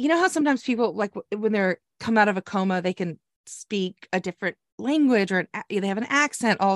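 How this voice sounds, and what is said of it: Usual voice. Nothing is said of it.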